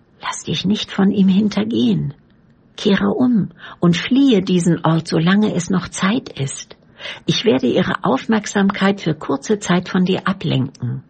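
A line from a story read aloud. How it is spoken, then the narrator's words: Quiet speech. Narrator (German): sprach er leise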